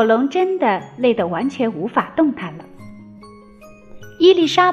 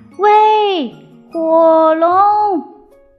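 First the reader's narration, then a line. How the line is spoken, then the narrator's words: Loud shout. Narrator (Chinese): 尽可能的大声喊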